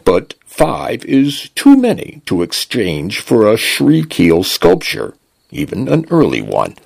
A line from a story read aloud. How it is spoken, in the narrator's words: the translation device intoned